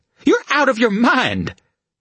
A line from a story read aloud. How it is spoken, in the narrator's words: She sputtered